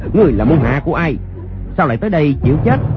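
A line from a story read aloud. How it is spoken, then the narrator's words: Loud shout. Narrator (Vietnamese): Người sử đơn đao quát lớn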